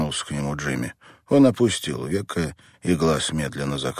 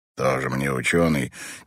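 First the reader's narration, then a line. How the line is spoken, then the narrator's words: Displeased grumble. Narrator (Russian): недовольно пробурчал Мэтт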